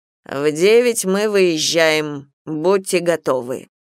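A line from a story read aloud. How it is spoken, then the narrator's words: Cold. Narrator (Russian): холодно произнес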